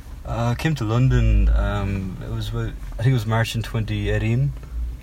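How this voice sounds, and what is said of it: Irish accent from Cork. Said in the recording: “as you can probably tell from my, my accent, I'm from Cork in Southern Ireland.”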